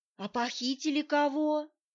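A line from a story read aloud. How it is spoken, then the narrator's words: Quiet question. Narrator (Russian): тихим голосом спросила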